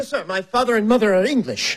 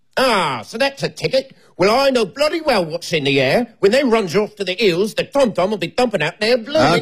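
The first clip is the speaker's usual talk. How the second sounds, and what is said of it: Put-on Cockney accent, older man. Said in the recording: “You do a Cockney accent? ... Like he's 60, correct?”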